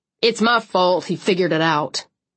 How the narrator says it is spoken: Cole said sharply

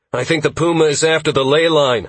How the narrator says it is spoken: I shouted back at him

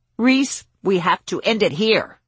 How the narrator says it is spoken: Trudy said, her voice steely and commanding

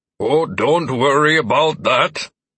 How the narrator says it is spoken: George replied with a chuckle

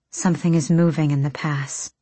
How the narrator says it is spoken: Nezrin breathed

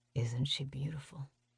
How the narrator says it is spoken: He murmurs

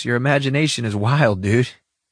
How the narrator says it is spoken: I added with a laugh

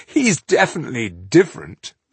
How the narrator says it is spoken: Leuthen laughed out loud

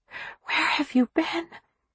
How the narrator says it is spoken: she whispered

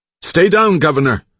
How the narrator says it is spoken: her driver shouted

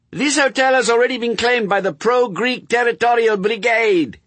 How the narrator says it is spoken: he screamed

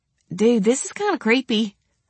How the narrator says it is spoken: I said with a laugh

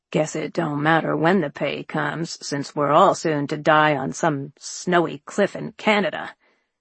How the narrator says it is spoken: the veteran behind us grumble

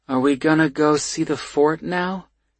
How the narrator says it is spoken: he asks dreamily

